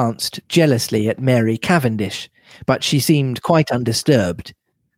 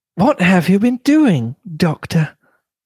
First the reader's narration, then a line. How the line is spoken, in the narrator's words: cried Mrs